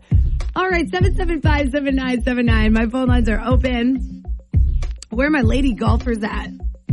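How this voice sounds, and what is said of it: Slightly lost, worn voice. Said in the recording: “My voice is a little gone”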